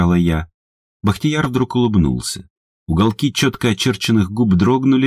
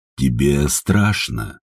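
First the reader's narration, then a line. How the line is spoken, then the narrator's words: Gentle, tender. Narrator (Russian): ласково сказал он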